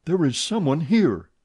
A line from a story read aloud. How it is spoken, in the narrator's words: said Raoul, with his back against the closed door, in a quivering voice